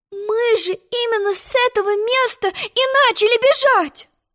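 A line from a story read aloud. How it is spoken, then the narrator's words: Exclaiming. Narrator (Russian): воскликнула она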